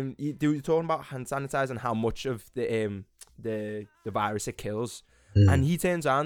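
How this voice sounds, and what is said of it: Usual voice. Nothing is said of it.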